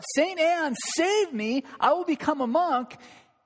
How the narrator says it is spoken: Luther, when he cried out

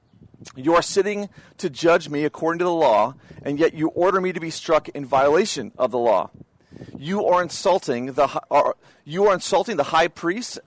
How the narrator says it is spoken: asked the bystanders

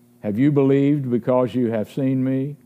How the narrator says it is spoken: Jesus asked

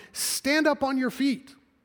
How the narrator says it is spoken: called out to him

